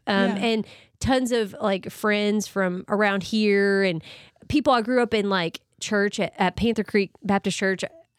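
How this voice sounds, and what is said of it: Hoarse, fading, slightly teary voice. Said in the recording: “I'm like losing my voice. Allergy season. ... I'm tearing up.”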